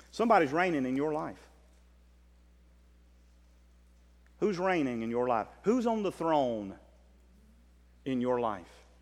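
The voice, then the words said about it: Southern US accent. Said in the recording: “That's my southern accent.”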